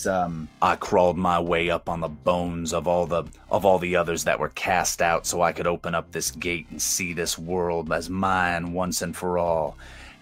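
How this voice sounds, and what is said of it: Deep, grinding monstrous character voice. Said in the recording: “you hear that deep voice, but tinged with these sounds of like cracking and grinding noises and all this terrible sound”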